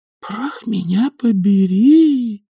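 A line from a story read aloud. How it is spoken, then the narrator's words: Very quiet repetition. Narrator (Russian): повторила нянюшка совсем тихо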